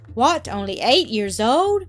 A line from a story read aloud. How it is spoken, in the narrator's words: Miss Rottenmeier exclaimed indignantly